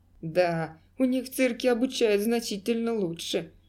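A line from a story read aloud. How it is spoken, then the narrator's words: Laughing loudly. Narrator (Russian): снова расхохотался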